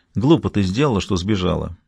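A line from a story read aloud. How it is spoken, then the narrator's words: Gentle reproach. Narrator (Russian): мягко укорил ее Том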